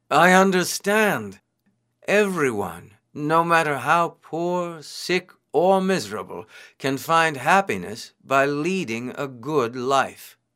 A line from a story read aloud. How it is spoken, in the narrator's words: Suddenly exclaimed